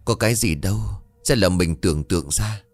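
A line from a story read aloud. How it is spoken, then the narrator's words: Forced sigh, self-reassuring. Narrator (Vietnamese): Anh Sàn tự chấn an mình bằng một tiếng thở dài gượng gạo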